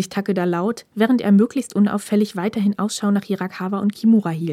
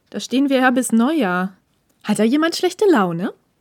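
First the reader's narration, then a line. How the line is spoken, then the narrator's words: Smirking, teasing. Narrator (German): feixte Ishida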